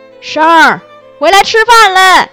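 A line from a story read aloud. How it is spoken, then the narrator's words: Grandmother calling loudly. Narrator (Chinese): 奶奶就在门口嚷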